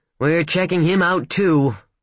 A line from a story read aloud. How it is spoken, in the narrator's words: Steiger grumbled